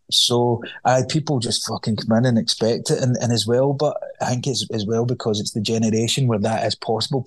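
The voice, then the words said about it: Scottish accent. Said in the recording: “with a Scottish accent”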